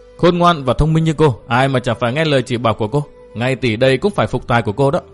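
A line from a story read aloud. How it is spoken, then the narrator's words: Soft, quiet. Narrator (Vietnamese): Tiểu Kỳ khẽ nói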